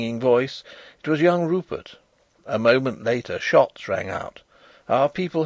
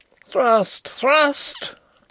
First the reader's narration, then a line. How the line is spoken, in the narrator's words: cried Rupert again